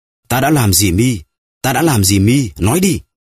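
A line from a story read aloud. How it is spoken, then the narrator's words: Frantic dreamlike screaming. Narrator (Vietnamese): Villefort đang ở trong trạng thái thần kinh hỗn loạn và hét lên như người mơ ngủ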